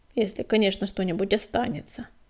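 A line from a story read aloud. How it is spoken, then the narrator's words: Grumbled. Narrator (Russian): буркнул Быстролап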